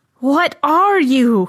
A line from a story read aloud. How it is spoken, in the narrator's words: he howled